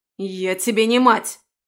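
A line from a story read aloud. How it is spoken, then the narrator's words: Barked shout. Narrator (Russian): рявкнула женщина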